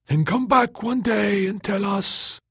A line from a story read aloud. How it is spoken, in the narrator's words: the fogs cried